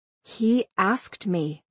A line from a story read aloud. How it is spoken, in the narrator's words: I said quietly so that only Madison could hear